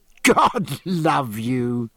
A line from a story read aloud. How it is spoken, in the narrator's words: said Jack, laughing